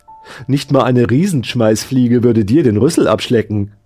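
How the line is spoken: Cheerful. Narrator (German): sagte die Kopie fröhlich

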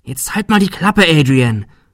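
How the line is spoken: Quiet hiss. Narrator (German): fauchte Shirley leise

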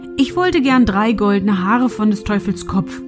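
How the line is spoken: Plain answer. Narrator (German): antwortete er

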